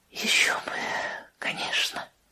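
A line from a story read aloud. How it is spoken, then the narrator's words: Whispering. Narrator (Russian): прошептала она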